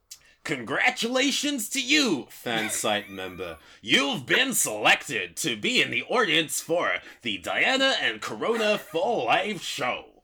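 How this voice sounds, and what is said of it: Pirate voice. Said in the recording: “In a pirate voice,”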